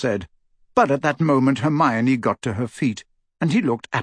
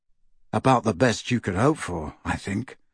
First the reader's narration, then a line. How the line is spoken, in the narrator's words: murmured Harry